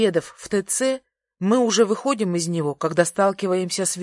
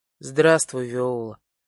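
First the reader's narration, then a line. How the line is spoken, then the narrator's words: Cold reply. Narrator (Russian): отвечаю холодно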